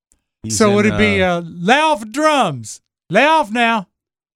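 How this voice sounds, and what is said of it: Put-on Southern accent. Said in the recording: “why do you give him a southern accent?”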